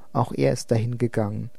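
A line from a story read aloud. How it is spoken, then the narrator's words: Plain. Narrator (German): sagte er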